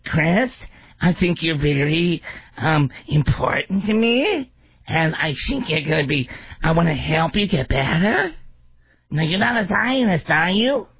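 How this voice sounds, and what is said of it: Nasal, question-like intonation impression. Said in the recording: “you're always talking in question, and you talk to your nose ... You can't even impersonate without laughing!”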